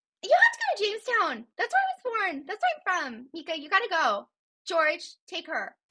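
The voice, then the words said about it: Impression of mother, Fargo-like accent. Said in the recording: “great impression. Can you do an impression of your mom? ... It sounds like your mom's maybe from Fargo.”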